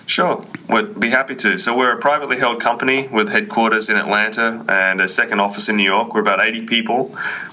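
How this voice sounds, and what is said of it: Australian accent. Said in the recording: “that great Aussie accent”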